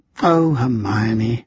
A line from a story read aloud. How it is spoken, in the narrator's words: Lucy sighed